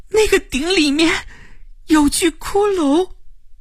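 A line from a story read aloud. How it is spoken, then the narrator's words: Trembling voice. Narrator (Chinese): 齐家声音发颤地说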